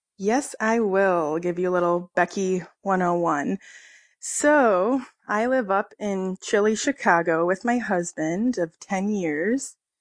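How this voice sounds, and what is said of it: Rough, cracking voice. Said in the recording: “we're all recovering from being sick. So sorry if my voice cracked. ... rough.”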